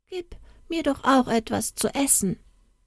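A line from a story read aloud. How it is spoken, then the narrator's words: Stammering. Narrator (German): stammelte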